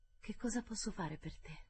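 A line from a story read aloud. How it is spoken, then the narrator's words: Child's murmur. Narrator (Italian): mormorò la sposa bambina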